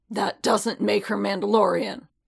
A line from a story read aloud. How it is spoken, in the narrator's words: Paz growled